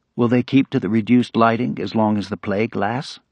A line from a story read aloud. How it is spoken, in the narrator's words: Madame Rieu asked